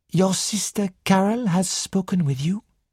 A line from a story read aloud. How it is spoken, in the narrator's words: Poirot asked gently